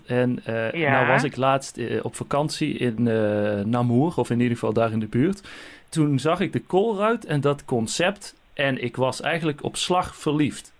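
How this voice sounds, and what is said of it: Dutch (Netherlands) accent. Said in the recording (Dutch): “Misschien hoort u het aan mijn accent. Ik kom uit Nederland.”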